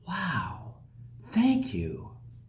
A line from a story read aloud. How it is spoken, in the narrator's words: that person will generally respond whispering